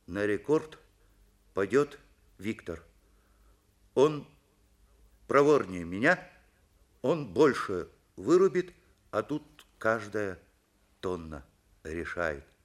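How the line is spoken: Slow, deliberate speech. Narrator (Russian): Андрей медленно произнес

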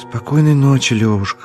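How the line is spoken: Sighing. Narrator (Russian): вздохнул Подтягин

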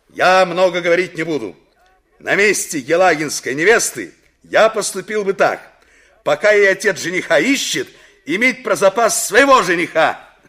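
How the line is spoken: Loud over noise. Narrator (Russian): посреди общего неожиданно поднявшегося шума громко сказал

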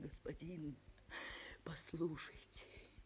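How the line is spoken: Timid whisper. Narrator (Russian): Она еле осмелилась шептать

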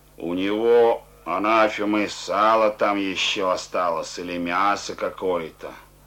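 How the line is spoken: Soldier's grumble. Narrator (Russian): ворчал солдат

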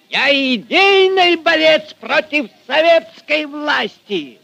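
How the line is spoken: Furious shouting. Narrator (Russian): Багровея от гнева кричал Фомин

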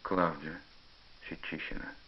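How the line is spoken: Sighing confession. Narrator (Russian): вздохнул и признался

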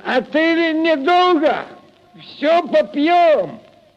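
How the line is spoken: Tipsy shout. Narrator (Russian): Захмелевший Прохор крикнул вслед им

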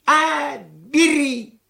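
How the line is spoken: Old man's shout. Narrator (Russian): крикнул старик

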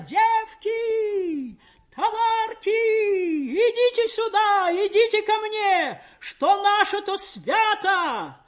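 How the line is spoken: Strange singing joyful calling shout. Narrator (Russian): Мать неслышанно чужим голосом, поющим, но призывно радостным кричала

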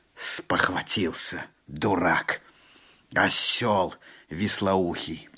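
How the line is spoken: Through clenched teeth. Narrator (Russian): проговорил Алан-Бий сквозь зубы

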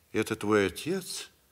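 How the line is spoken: Gentle, affectionate. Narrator (Russian): ласково сказала сестра

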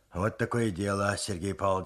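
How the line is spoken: Slightly muffled voice. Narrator (Russian): сказал глуховатым голосом

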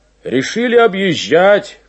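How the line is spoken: Shout. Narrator (Russian): крикнул он

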